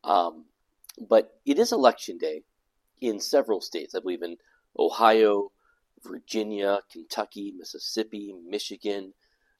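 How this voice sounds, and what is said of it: Rough voice with a cold. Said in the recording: “My voice is not great. I've had this cold”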